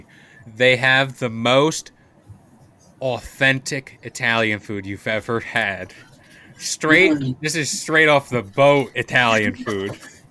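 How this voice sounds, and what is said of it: Sarcastic, mock-enthusiastic tone. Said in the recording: “I'm saying this sarcastically.”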